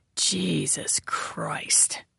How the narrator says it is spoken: whispering

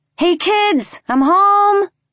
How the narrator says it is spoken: I yelled down the stairs, trying to sound cheery and not as if my eyes had just been burned out of my head

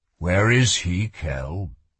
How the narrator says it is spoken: asked the king, his voice softening

